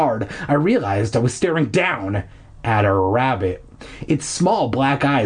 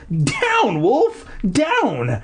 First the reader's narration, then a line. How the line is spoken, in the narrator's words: I cried, laughing